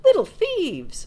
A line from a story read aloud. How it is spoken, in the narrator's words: she cried